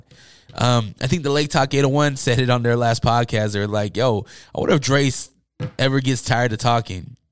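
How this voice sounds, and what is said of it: Hoarse, worn-out voice. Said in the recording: “I'm losing my voice. I've been talking all day ... this is not my normal voice ... My voice is gone”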